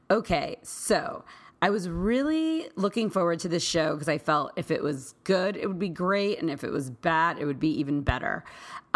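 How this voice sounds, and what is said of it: Hoarse, scratchy voice. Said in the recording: “why my voice is so hoarse and scratchy”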